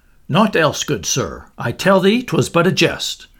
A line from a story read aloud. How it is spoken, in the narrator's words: The man answered sharply